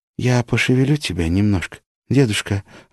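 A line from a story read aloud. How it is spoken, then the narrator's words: Gentle affectionate warning. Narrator (Russian): ласково предупредила Маша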